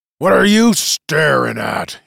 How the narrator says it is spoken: he growled

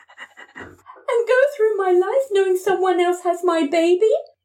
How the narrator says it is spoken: Amanda screamed in direct contrast

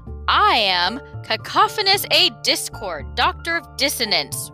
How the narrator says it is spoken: roared the man

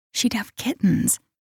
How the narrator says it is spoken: Shailene whispered

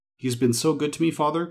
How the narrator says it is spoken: cried young Robin

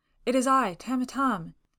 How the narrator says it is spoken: he cried

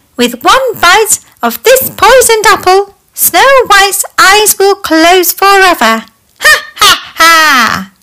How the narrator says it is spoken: she cackled

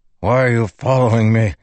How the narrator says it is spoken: Teft growled

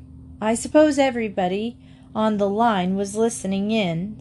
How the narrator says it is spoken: said Emily crossly, because she did not like being laughed at

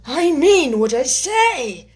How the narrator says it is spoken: the Mock Turtle replied in an offended tone

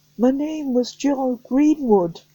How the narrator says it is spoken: the boy called out

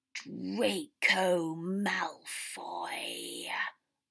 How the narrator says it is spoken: Voldemort said again, hissing, freakish voice

